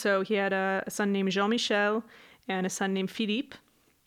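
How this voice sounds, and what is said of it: Put-on French accent on names. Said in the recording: “thank you for doing the accent. ... for those of you who are not French.”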